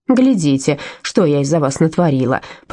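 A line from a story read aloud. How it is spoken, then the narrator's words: Grumbled. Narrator (Russian): проворчала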